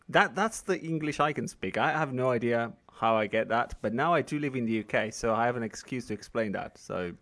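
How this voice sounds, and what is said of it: British accent. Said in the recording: “you have a very British accent.”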